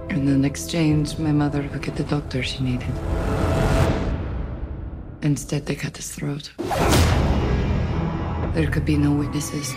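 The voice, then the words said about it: Russian accent. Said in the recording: “Is that accent Russian? ... Yes. Ish?”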